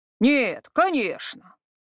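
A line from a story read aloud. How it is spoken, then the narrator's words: Rough grumble. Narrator (Russian): грубо проворчал Харат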